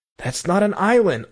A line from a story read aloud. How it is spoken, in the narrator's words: I cried skeptically